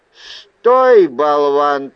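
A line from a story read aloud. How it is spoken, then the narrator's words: Thundering from above. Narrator (Russian): прогремело откуда-то сверху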